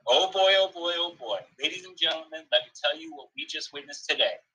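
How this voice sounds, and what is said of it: Imitates another person's voice. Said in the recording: “Do you want me to do the voice now? ... here's what Stephen A. Smith had to say”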